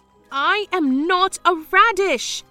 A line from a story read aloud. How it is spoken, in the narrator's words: I shouted clearly for the first time